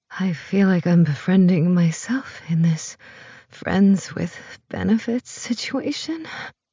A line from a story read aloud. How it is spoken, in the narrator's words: she says, her voice barely more than a whisper that dissolves into a moan